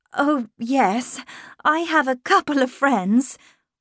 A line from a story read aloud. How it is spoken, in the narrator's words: I laughed